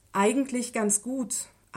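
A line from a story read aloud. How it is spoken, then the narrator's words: Plain. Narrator (German): antwortete er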